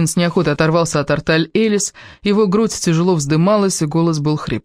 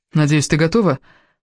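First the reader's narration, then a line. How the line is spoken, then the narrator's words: Calmer tone. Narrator (Russian): добавил он уже более спокойным тоном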